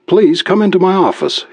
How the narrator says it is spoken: he said quickly

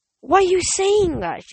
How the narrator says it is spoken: cried

